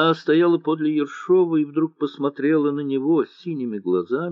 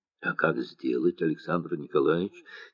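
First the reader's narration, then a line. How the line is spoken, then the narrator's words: Quiet. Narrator (Russian): тихо сказала императрица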